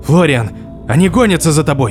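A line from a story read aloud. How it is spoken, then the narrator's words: Shouting. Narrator (Russian): крикнул Лангер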